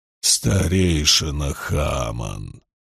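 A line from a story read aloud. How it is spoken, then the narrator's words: Muttering. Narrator (Russian): пробормотал он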